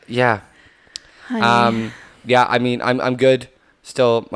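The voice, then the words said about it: Hoarse, strained voice. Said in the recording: “my voice is kind of shot.”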